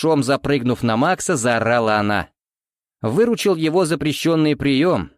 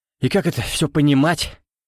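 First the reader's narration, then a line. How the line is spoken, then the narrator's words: Loud swaggering exhale. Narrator (Russian): Шумно, с лихостью отстрелявшегося ковбоя, выдохнул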